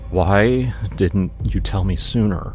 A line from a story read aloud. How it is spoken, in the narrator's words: He asked, his voice trembling